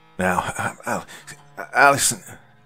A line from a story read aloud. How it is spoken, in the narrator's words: Dad stammered